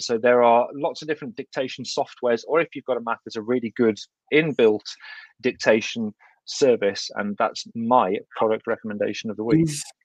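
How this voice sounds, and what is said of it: Thick English Midlands accent. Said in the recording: “my thick Kidderminster accent”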